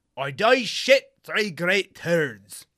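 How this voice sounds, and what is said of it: Put-on mock medieval English accent. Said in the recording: “That was quite the accent. ... I can't get it quite right. It sounds like Fat Bastard. ... like a medieval England?”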